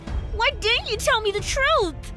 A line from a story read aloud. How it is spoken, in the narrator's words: I screamed